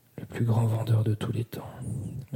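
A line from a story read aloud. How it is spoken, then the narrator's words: Murmuring. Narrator (French): murmura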